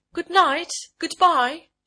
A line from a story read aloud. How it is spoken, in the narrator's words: she cried from the top steps